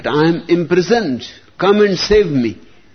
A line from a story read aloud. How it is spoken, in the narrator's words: he started shouting to his mother